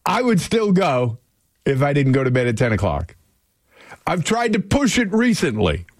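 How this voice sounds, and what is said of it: Yelling, loud voice. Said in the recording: “Why am I yelling?”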